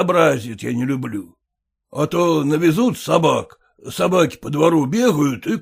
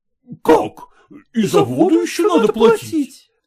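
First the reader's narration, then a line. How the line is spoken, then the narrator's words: Tenants exclaiming. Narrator (Russian): воскликнули съемщики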